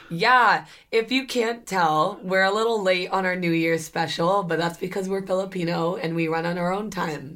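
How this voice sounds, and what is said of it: Hoarse, nearly lost voice. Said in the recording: “that's why my voice is gone ... she loses her voice every single time she parties hard”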